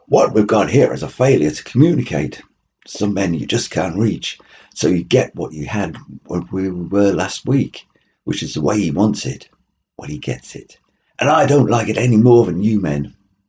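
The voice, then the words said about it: Poor put-on American accent. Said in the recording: “my American accent and acting skills are pretty atrocious”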